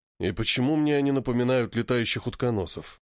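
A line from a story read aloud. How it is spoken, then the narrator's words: Sighing. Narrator (Russian): Вздохнул Спартак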